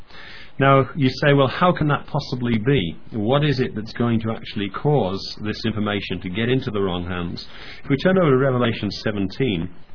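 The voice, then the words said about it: Voice affected by a cold. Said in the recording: “please excuse my voice by the way, I'm recovering from a cold”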